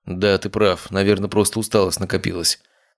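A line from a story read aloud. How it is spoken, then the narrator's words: Muttered. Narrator (Russian): пробормотал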